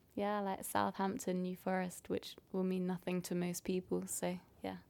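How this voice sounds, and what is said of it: Southern English British accent. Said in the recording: “it's quite clear. It's British. British mm-hmm. English. Southern English. Accent. Pretty standard.”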